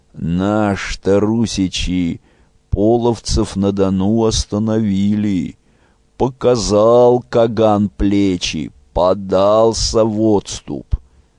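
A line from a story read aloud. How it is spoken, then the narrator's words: Toothless old man's mumble. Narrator (Russian): Древний дед Вещун прошамкал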